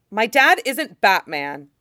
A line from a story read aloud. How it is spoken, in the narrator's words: Tim exclaims